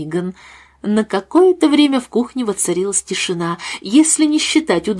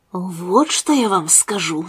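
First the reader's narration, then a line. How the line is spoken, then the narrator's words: Conspiratorial whisper. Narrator (Russian): заговорила кухарка заговорщическим шепотом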